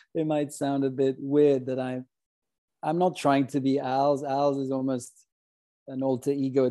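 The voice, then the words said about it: Swiss-accented English. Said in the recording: “I'm this Swiss man with a foreign accent”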